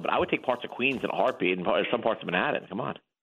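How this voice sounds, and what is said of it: New York accent. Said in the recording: “I couldn't tell you were from New York, ... The accent's a dead giveaway.”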